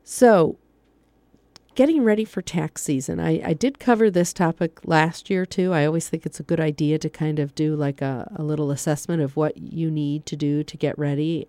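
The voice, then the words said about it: Stuffy, congested voice. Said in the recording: “I think I'm getting a cold, so I sound a little stuffy tonight. So I'm sorry if I lose my voice”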